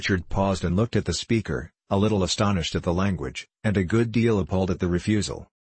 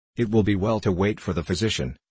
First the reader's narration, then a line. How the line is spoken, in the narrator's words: said the hunter coldly